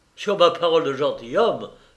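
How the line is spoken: Baron exclaiming. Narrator (French): s'écria le baron Steinfeld

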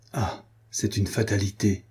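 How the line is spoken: Murmured. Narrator (French): murmura-t-il

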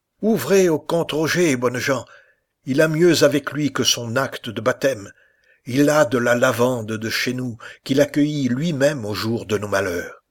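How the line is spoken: Shouted. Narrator (French): Elle cria

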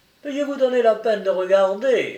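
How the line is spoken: Sneering, repeated insistence. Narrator (French): répète-t-il sans cesse, en ricanant à chaque mot

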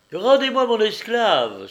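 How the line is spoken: Exclaimed. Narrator (French): s'écria la virago

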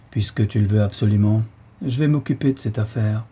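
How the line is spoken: Resigned old man. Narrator (French): fit le bonhomme d'un ton résigné

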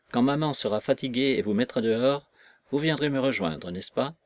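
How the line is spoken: Cheerful smiling woman. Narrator (French): dit-elle à Kolossov et à Nekhludov, en souriant gaiement à ce dernier

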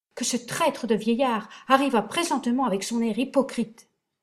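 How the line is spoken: Brother crying out, weeping. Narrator (French): s'écria mon frère en pleurant

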